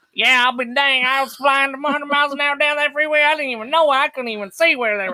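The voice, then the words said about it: Southern American accent. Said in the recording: “I've been able to retain my southern dialect very well ... talk the same as Southern Georgians”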